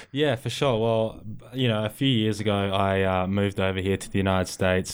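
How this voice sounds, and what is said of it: Australian accent. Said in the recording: “you have an Australian accent”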